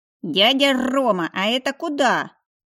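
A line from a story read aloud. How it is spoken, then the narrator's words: Playful growl. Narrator (Russian): прорычал мой маленький львенок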